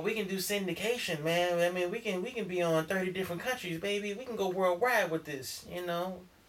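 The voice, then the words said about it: Smooth Motown executive voice. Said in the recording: “talking like a Motown executive”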